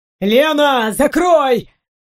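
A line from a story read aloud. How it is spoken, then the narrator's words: Barked shout. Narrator (Russian): рявкнул Гарольд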